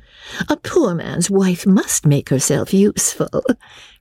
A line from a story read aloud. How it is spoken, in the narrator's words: Rebecca replied gaily